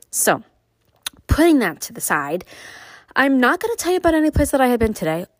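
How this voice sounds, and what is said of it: Nasal, congested voice. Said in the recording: “My allergies are at 100% ... if I sound nasally, that would be my reason”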